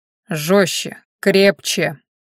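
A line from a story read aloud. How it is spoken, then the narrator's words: Curt commands. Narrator (Russian): отрывисто приказывал Хорен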